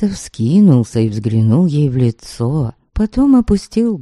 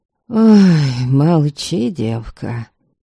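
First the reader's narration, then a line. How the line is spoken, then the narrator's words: Sigh. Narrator (Russian): Ваята вздохнул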